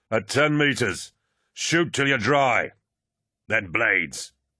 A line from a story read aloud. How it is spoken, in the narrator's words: Tarvitz bellowed